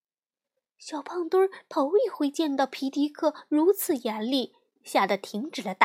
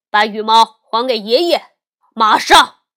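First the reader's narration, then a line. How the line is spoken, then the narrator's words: Angry loud scolding. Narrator (Chinese): 他生气的大声斥责说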